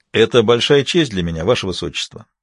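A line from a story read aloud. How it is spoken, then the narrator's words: Very formal tone. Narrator (Russian): ответил самым официальным тоном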